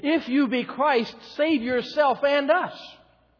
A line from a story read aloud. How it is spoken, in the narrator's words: His companion jeered